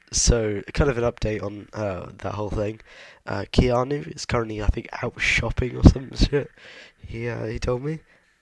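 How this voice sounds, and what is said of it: Sick, under-the-weather voice. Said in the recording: “tell by my voice ... I'm kind of a bit under the weather ... I was so ill, I could barely speak”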